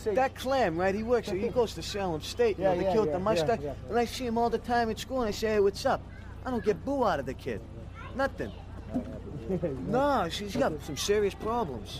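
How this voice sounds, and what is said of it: Boston accent, partly New York-sounding. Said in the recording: “Listen to the way this guy talks ... That accent. ... parts of it sound more like New York-y? Like, hey, how you doing? ... the Boston accent”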